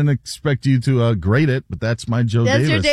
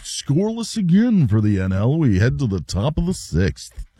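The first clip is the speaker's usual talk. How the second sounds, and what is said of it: Imitates another person's voice. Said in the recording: “here's my Joe Davis ... There's other impersonations you do that are better, so that one was not one of your best.”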